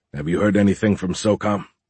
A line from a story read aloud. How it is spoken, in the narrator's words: Beckham asked